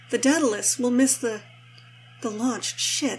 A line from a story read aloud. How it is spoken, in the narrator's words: Rodney says, breathlessly